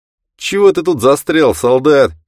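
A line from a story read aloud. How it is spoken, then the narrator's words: Shout. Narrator (Russian): крикнул миротворцу Грей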